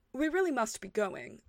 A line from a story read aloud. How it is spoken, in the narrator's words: said Harry